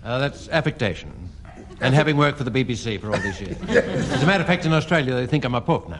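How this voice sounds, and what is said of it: English-sounding accent. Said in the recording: “You have such a wonderful English accent.”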